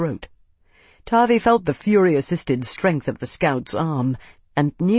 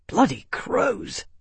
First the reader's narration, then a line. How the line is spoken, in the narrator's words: he hissed